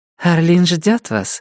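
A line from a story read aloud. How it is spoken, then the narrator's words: Cooing. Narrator (Russian): проворковала она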